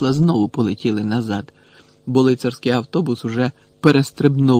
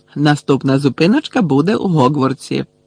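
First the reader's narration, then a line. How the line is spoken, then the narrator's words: Cheerful warning. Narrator (Ukrainian): весело попередив їх Стен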